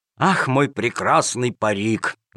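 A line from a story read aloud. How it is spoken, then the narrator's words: Sad sigh. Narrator (Russian): вздохнул с грустью Джакомон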